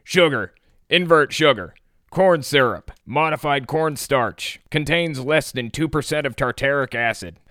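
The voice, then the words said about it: Raspy Alex Jones impression. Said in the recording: “do it in an Alex Jones voice. ... This is going to hurt my throat. ... I can't get the exact raspiness of it down.”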